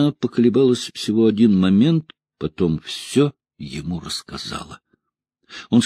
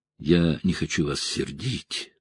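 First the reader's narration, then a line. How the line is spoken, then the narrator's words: Young woman mumbling. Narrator (Russian): пробормотала девушка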